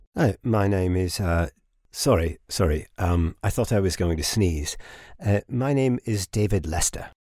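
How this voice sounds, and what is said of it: Educated-sounding accent. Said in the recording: “Listen to that accent. What I wouldn't give to sound so educated.”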